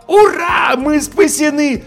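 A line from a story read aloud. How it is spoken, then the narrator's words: Yelling. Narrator (Russian): Завопил я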